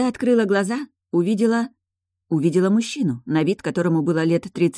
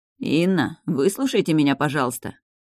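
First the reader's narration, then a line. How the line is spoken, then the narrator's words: Calm, measured male voice. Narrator (Russian): спокойно и размеренно произнес мужчина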